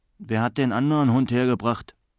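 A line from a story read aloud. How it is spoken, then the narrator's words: Growled. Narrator (German): knurrte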